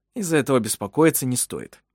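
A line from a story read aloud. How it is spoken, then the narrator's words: Dry. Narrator (Russian): сказал он сухо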